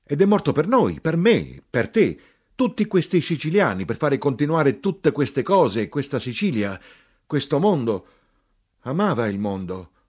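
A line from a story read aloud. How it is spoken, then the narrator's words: Even louder shouting. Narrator (Italian): Ancora più forte gridai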